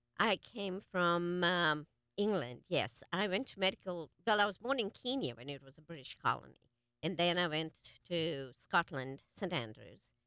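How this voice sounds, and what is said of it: English accent. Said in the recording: “You have such a beautiful accent ... So you came to the United States from London, was it?”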